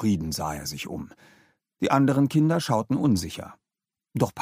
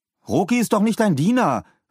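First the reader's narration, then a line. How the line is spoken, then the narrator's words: Indignant shout. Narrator (German): rief Paul empört zu Philipp hinüber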